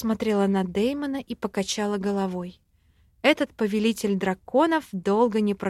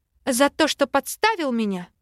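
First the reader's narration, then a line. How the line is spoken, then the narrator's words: Angry breathy. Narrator (Russian): зло выдохнула я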